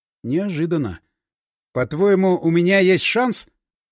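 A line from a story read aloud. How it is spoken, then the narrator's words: Gloomy question. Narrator (Russian): спросил я, мрачно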